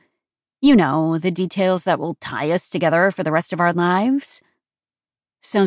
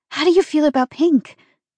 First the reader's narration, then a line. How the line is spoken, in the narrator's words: I breathed